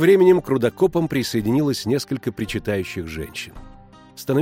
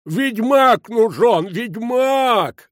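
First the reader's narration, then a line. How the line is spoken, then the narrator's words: Bellowing. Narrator (Russian): орал старшина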